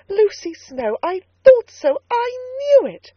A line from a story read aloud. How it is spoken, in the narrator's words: cried Mrs